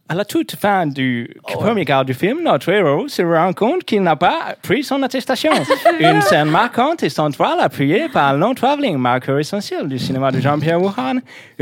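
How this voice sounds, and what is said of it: Reads aloud in a put-on accent. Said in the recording (French): “je vais continuer avec l'accent ... Avec un autre accent”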